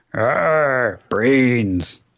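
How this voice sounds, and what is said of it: Zombie impression groan. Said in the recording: “his zombie impression”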